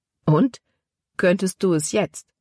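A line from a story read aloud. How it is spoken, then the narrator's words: Plain. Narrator (German): fragte Caleb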